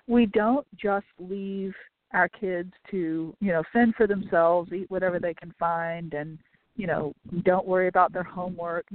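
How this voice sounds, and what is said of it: Choked-up, emotional voice. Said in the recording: “I'm a little choked up here today.”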